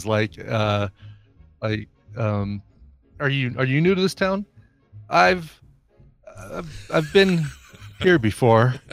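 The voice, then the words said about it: Bill Pullman impression, oddly placed pauses. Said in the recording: “he'll put pauses in weird places ... Working on your Bill Pullman too ... trying to impersonate the way he delivers his lines”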